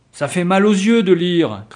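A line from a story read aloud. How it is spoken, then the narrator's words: Group shouting. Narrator (French): criaient-ils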